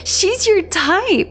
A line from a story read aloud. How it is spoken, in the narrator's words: Poppy giggled